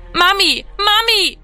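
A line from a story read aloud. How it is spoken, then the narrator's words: Echoing scream. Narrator (German): schrie, dass seine Stimme im Haus widerhallte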